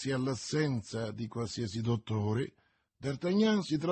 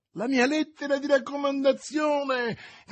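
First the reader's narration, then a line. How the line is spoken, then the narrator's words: Shouting. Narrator (Italian): gridava D'Artagnan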